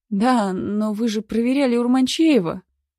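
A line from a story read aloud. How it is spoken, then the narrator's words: Exclaiming. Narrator (Russian): воскликнул я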